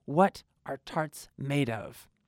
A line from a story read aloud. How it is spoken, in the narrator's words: he said in a deep voice